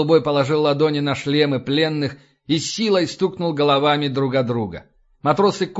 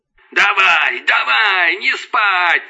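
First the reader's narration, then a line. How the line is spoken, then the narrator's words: Shouting. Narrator (Russian): заорал Лэнс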